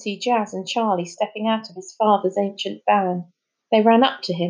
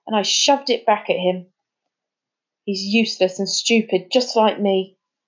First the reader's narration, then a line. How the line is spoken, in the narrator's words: said Finn savagely